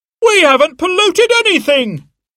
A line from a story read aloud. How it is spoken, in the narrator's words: shouted a man